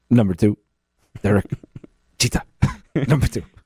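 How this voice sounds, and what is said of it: Bad, meek childlike imitation of another person. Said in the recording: “terrible Bob Shepard impersonation ... It sounds like a mix of Japanese and meek, like, four-year-old. So bizarre.”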